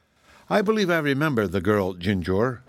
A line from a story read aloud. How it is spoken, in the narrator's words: remarked the canary in her sweet voice